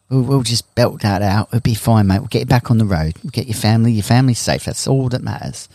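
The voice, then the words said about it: Put-on English accent. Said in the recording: “He said, "That's all right, mate," with his English accent.”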